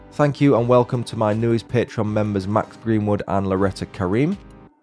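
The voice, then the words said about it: Speaks with a regional accent. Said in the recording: “Your accent makes it all the better”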